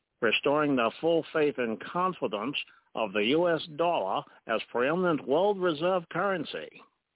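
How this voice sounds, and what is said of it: Franklin Delano Roosevelt imitation. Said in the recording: “did a Franklin Delano Roosevelt imitation”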